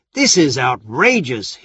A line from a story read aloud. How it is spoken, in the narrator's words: Hera said angrily